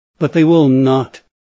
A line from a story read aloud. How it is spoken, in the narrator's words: Orita cried